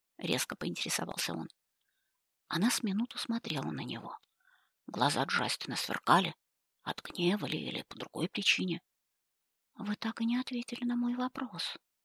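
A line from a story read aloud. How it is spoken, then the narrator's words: Mutter. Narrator (Russian): наконец пробормотала она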